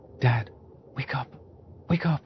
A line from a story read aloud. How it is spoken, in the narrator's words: my son whispering